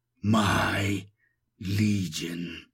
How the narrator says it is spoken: he growls

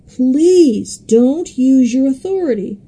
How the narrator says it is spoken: the demon-possessed man begged

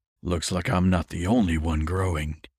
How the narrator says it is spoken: Peter rumbled

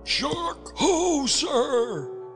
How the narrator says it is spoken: cried

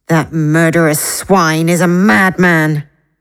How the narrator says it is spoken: Elaida growled between clenched teeth

